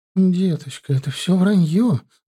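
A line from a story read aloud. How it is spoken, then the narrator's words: Trembling voice. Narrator (Russian): Дрожащим голосом проговорила Аполлинария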